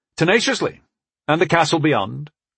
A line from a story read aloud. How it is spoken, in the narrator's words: I agreed evenly